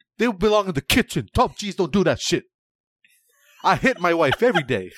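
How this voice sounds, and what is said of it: American voice with partly British accent. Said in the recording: “doing an impersonation of the top G ... who is American with a kind of a British accent”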